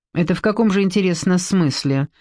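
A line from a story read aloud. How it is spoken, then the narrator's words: Mocking question. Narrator (Russian): насмешливо поинтересовалась Эстер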